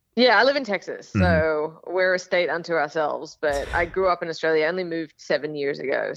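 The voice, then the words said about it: Hybrid Australian and American accent. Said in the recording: “I'm Australian. And I have like a weird hybrid accent ... they assume that I'm English ... why is a British lady telling us”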